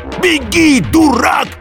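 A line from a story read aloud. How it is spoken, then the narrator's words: Warrior's shout. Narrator (Russian): крикнул воин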